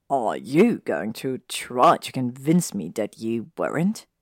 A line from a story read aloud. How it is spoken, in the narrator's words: Draco asked, snorting